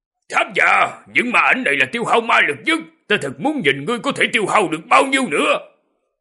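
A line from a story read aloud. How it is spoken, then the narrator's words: Loud shout. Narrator (Vietnamese): Trong miệng lại hét lớn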